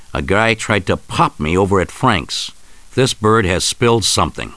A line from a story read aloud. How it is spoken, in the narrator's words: Rico confronts his betrayers, snarling